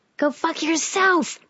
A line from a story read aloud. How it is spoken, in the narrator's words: she yelled